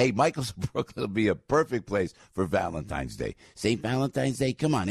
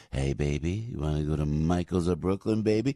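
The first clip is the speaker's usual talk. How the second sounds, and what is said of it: Lowered creepy flirtatious voice. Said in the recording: “That was my voice if I asked you out. I dropped my voice. ... That's actually my creepy voice, actually, is what I call that.”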